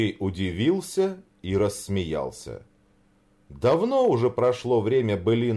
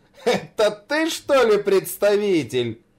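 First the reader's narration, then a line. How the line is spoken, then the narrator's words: Laughing question. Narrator (Russian): смеясь спросил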